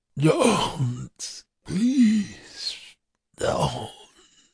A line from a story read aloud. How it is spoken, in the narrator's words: in a weaker, slurred voice